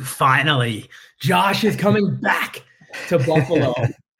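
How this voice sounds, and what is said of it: Impression of The Rock. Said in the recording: “do a rock impersonation.”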